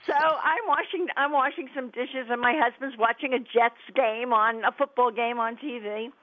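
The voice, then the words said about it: New York New Jersey accent. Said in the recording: “We're from the New York, New Jersey area, which everybody can probably tell from my accent ... if you want to know what New York, New Jersey accent sounds like, listen to”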